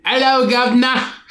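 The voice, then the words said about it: Put-on British accent, like Nick Frost. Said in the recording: “Are you going to do your British accent for this one because it's from London? ... You sound like Nick Frost.”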